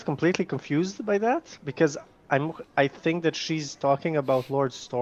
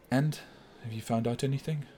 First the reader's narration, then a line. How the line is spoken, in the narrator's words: under her breath, she kind of asks